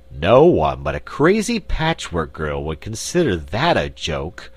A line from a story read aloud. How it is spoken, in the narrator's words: grumbled Button-Bright